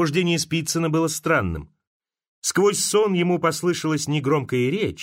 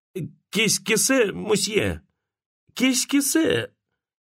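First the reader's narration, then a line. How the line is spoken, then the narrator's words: Trembling voice. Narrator (Russian): произнес Антон Пафнутьич трепещущим голосом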